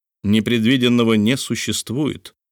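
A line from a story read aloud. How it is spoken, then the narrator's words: Calm. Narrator (Russian): спокойно ответил Филиас Фок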